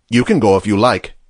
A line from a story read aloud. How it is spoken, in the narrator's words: said Gabriel coldly